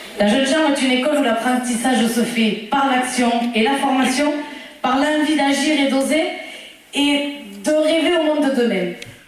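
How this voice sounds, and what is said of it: Lively, sharp regional French accent. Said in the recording (French): “j'ai reconnu mon accent du Lévezou, là. Bien péchu, bien pointu.”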